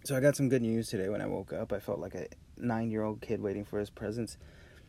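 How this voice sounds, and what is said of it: Raspy, groggy voice. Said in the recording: “Voice is a little raspy and groggy”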